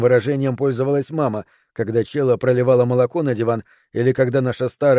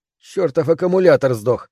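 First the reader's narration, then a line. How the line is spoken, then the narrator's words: Through gritted teeth. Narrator (Russian): процедил я сквозь зубы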